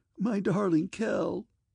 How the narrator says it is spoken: she sobbed in his arms

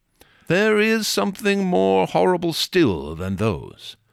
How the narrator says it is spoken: he added, shaking his head gloomily

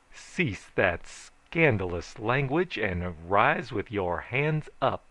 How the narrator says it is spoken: I requested

